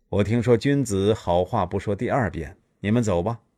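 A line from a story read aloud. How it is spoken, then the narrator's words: Heavy sigh. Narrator (Chinese): 夫差长叹一声说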